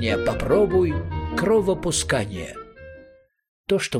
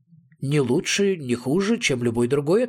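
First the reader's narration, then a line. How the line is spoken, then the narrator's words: Plain. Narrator (Russian): ответил я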